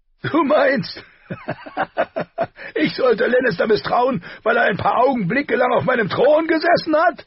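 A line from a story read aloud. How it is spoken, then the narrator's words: Shaking with laughter. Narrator (German): bebte er vor Lachen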